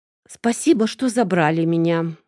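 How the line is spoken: Forced out with effort. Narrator (Russian): выдавила я из себя

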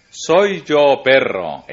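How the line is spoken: Exclaiming. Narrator (Spanish): exclamó

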